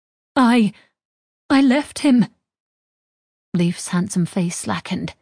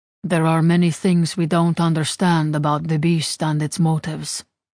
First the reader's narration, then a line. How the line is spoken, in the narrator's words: Leif said quietly